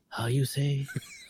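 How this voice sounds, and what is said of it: Imitates another person's voice. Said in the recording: “That's a good impersonation”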